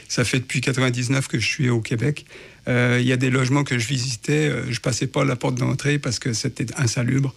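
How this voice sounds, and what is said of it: Non-Quebec French accent. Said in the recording (French): “j'ai un accent qui vient un peu de l'extérieur”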